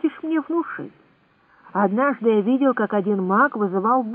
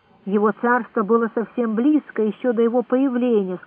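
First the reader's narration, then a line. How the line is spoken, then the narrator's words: Plain. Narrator (Russian): сказал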